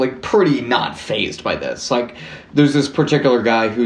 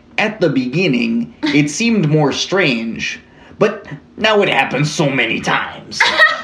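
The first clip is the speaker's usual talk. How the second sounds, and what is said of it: Bad Canadian accent, sounds Chicago. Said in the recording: “Is that a good Canadian accent? ... Not at all. ... That bad. Was like Chicago.”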